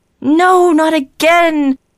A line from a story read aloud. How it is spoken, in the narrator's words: the rest of them cried